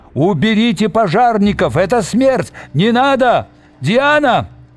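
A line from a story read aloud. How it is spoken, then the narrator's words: Shouts from a crowd. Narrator (Russian): кричал в толпе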